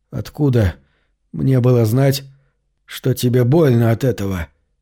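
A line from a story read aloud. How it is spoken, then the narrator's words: Strained, forced out. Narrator (Russian): Еле выдавил из себя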